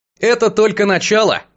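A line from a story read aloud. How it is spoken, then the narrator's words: Amused snort. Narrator (Russian): хмыкнул я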